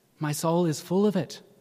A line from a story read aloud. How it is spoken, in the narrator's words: says